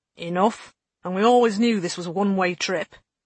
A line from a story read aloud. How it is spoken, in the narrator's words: the chief mutineer said grimly